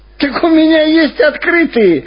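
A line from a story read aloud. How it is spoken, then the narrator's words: Joyful. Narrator (Russian): радостно сказал шофер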